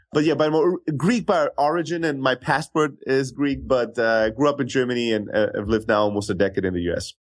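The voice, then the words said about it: Slight Greek-German accent. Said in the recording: “you have a little accent ... I'm originally from Greece, born and raised in Germany ... that's kind of where my accent comes from”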